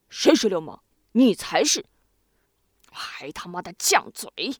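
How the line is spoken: Angry, insulted. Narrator (Chinese): 他觉得这是对自己人格的莫大侮辱，于是他愤怒地说

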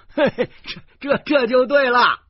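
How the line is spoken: Loud laughter. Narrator (Chinese): 游客大笑说

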